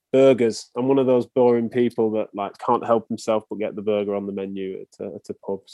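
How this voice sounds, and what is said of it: English accent. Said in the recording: “It's not a very English thing, is it? ... Chips are something that would match my accent”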